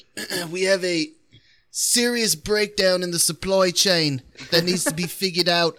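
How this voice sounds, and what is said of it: Put-on English accent. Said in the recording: “I'll take the English accent at three. ... my boss, he was the English dude”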